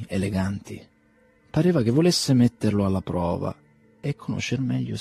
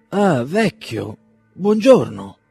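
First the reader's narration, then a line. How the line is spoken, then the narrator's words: Exclaiming. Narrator (Italian): esclamò Bazarov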